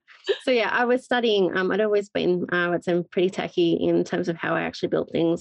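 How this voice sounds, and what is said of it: Australian accent. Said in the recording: “I'm in Australia, just for reference for those that haven't picked up the accent.”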